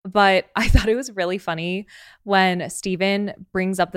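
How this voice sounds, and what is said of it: Usual voice. Nothing is said of it.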